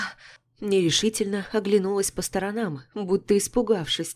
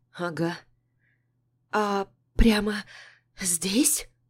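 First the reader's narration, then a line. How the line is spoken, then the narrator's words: Dropping to whisper. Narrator (Russian): Голос упал до шепота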